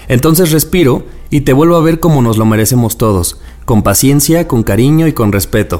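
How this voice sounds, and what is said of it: Announcer-style voice. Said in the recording (Spanish): “qué bonito escucharlo de tu voz de locutor.”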